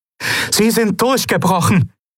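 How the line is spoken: Calling to others. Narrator (German): rief Aylan den anderen zu

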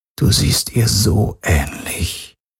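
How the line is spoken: Quiet. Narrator (German): sagte er leise

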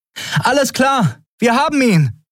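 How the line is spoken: Calling out. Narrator (German): rief Endriel dem wartenden Schiff zu

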